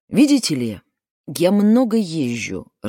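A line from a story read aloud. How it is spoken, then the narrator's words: Irritated interruption. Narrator (Russian): раздраженно прервал ее Жубер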